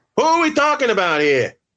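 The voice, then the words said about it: Imitated New York accent. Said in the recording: “best New York accent imitation”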